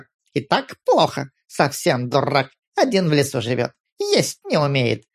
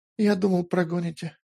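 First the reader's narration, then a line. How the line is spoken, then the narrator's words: Barely audible. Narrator (Russian): еле слышно ответил Петр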